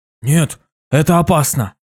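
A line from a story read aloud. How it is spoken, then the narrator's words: Frightened exclamation. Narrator (Russian): Испуганно воскликнул Карви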